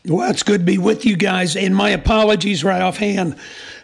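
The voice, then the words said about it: Hoarse, strained voice. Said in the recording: “I've lost my voice this past week, and so I sound a little bit different and a little bit older”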